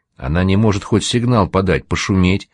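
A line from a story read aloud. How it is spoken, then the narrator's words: Plain. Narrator (Russian): спросил кот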